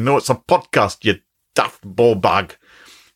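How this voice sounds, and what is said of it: Put-on Glaswegian Scottish accent. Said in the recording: “was quite an interesting Glaswegian accent”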